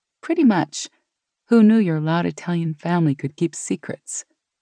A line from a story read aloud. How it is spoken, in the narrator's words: Gina laughed